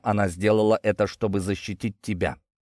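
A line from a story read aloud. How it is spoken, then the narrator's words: Quiet but resolute. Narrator (Russian): Тихо, но решительно сказал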